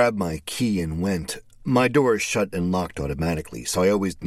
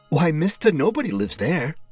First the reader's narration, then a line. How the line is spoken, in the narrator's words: she exclaimed